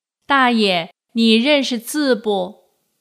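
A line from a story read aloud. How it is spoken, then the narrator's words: Loud. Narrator (Chinese): 我便凑到老人耳边大声说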